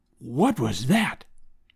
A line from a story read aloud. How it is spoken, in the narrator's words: I whispered